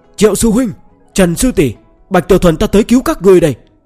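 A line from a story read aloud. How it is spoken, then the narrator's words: Loud bravado shout. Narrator (Vietnamese): hắn cảm thấy sẽ có kẻ cho rằng mình sợ, nên lập tức hét lớn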